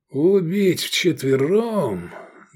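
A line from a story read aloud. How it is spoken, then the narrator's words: Muffled, hollow. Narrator (Russian): глухо проговорил он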